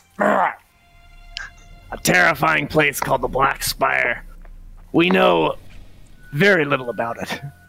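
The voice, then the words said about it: Performs a character voice. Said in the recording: “why am I not doing the scrim voice?”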